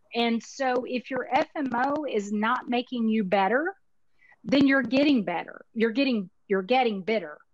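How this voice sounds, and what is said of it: Texas accent. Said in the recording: “My Texas accent got in the way there.”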